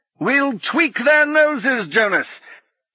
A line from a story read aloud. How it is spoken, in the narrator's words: he bellowed over the roar of the wind